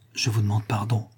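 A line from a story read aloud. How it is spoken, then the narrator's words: Low, ashamed voice. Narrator (French): dit Varin à voix basse, presque honteux de pénétrer dans cette intimité douloureuse de la mère au désespoir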